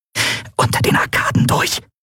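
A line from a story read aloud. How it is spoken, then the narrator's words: Hissing. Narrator (German): zischte Endriel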